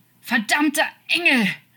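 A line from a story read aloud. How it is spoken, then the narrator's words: Shouting, choking back sobs. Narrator (German): schrie er und unterdrückte das Schluchzen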